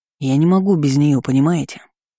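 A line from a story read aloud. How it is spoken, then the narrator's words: Muffled growl. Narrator (Russian): глухо рыкнул маг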